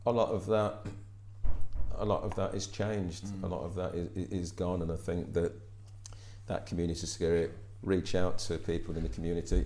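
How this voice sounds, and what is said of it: London accent with twang. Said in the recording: “they recognise the London... there's a bit of a twang in the accent”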